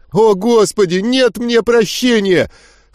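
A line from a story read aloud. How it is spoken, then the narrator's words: Renewed wailing howl. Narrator (Russian): С новыми силами взвыл Говард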